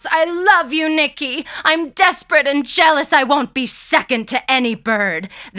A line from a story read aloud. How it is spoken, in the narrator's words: She shouts